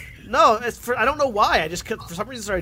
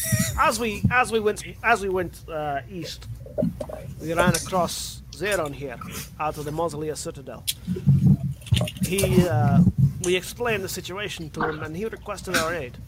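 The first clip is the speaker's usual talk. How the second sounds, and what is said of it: Put-on Scottish-Russian accent. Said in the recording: “somewhere between Russian and Scottish ... get out of this fucking accent ... Can't handle your Scottish for long ... started dipping into Russian”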